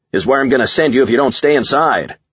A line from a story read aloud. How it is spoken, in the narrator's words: I shouted back